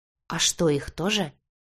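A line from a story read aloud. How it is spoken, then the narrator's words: Frightened question. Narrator (Russian): испуганно спросила девушка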